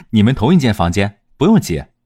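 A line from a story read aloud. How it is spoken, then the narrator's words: Giggling. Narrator (Chinese): 中兰人嬉笑说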